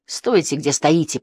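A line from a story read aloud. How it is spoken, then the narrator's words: Hissing. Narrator (Russian): прошипел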